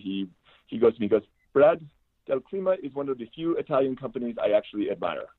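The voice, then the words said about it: Put-on French accent. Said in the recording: “I'm doing a little French accent here”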